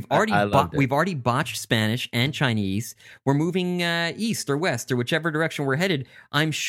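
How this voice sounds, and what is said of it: Usual voice. Nothing is said of it.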